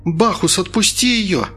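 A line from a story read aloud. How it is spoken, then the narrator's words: Shouted command. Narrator (Russian): закричала Инга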